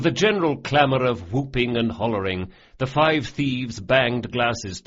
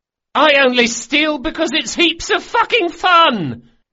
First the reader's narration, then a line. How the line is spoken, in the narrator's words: The boy raised his glass a bit shakily and yelled